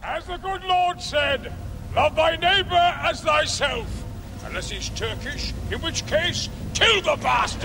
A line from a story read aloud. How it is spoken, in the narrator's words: King Richard IV, played by Brian Blessed, who is always shouting